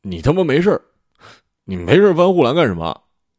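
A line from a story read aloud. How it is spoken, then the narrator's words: Choked tearful speech. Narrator (Chinese): 阿良 眼睛哭得红肿，说起话来哽咽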